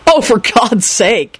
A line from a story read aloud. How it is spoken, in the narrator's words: Henry snapped unsympathetically